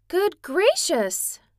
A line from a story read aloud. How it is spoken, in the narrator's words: she cried